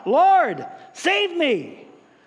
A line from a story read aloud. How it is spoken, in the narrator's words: beginning to sink cried out